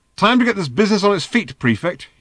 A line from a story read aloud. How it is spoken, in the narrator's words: he snapped